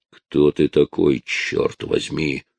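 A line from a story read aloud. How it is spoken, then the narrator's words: Growled. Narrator (Russian): прорычал Джозеф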